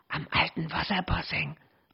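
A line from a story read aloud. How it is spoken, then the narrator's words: Hissing. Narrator (German): zischte Thea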